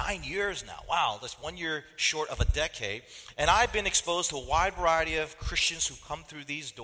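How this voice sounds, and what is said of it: Usual voice. Nothing is said of it.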